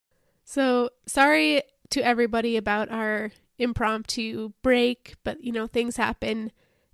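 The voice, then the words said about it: Voice roughened from illness. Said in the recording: “I apologize for my voice. I have been sick. ... And my voice is still recovering”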